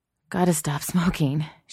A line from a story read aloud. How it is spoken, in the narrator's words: she pants